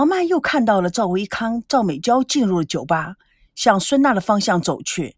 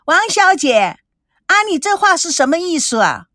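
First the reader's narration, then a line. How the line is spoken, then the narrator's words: Shrill shout. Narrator (Chinese): 吴梦玲尖声的叫道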